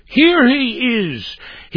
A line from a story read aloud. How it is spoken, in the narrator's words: exclaimed